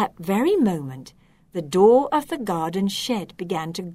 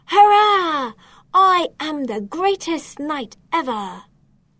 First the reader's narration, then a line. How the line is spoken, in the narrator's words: He proudly shouted